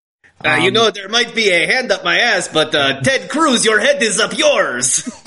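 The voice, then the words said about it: Triumph the Insult Comic Dog impression. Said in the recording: “That's a good Triumph impression.”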